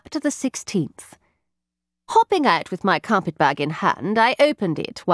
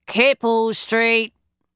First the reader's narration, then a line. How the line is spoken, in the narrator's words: the cabby bawled in a bored tone